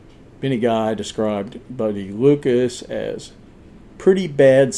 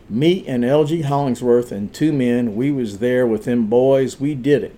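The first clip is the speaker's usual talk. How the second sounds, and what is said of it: Light put-on Southern accent. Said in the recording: “I'm putting on a little bit of a southern accent, but honestly, I don't have to work it too hard.”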